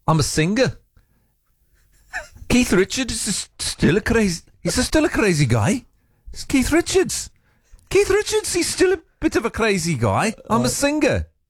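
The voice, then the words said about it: Poor Liverpool accent imitation. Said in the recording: “my attempt at that Paul McCartney accent... She said that was terrible... I think that was way worse”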